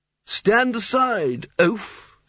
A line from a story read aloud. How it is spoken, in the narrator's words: said the wizard